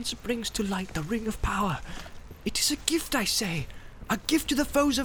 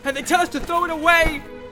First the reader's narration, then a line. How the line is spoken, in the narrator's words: he cried